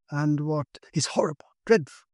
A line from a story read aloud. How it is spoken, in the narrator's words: cried